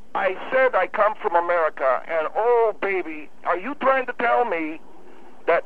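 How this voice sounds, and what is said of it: Noticeable foreign accent, possibly German. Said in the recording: “you got an accent ... your accent is very noticeable ... you sound like, I asked you if you come from Germany”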